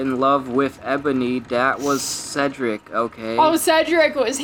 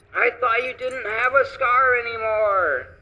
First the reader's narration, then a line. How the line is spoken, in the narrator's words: I shouted